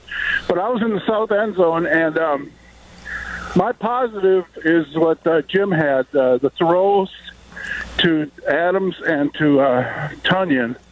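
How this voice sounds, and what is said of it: Slightly hoarse voice. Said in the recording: “I'm a little hoarse from yelling last night.”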